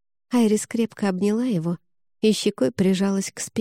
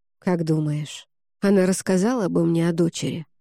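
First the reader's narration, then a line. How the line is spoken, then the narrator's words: Quiet sad question. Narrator (Russian): спросил он тихим и грустным голосом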